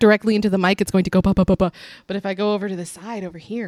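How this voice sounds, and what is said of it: Usual voice. Nothing is said of it.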